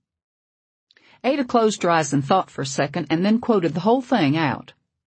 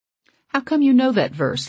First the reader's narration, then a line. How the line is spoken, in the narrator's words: Leah asked